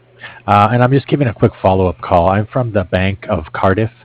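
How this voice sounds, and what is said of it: Hoarse, failing voice. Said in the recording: “I'm losing my voice here”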